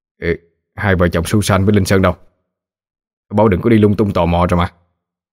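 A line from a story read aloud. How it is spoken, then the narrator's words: Annoyed. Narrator (Vietnamese): Anh Bình bực bội nói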